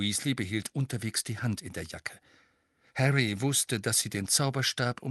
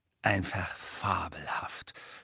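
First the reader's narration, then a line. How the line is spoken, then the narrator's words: Whispered. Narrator (German): flüsterte er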